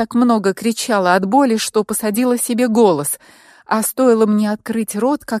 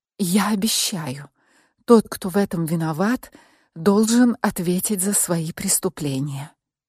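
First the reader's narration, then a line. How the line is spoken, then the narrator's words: Barely audible rustle. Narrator (Russian): еле слышно прошелестела я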